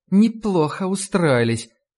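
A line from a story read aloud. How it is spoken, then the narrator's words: Angry, through gritted teeth. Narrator (Russian): зло процедила мисс Клейн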